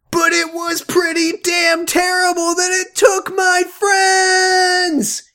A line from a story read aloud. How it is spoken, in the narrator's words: he yelled while sobbing loudly